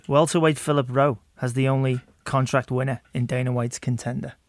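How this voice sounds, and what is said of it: English accent. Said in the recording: “English accent ... You got a great accent.”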